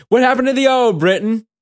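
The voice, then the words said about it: Exaggerated put-on British accent. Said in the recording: “in your ridiculous British accent.”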